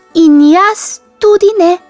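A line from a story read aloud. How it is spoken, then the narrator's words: Squeaking mouse. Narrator (Slovenian): je zacvilila miška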